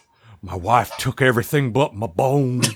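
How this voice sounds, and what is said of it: Bad southern-accented character impression. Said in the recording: “the Bones voice ... you can southern up the Bones voice a little. ... If you're a skilled mimic, which neither of us clearly are. ... the Carl Urban Bones, because that's a bad accent, and I can do a bad accent.”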